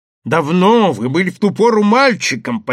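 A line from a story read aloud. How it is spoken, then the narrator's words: Nearly shouting. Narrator (Russian): почти кричал человек с бородкой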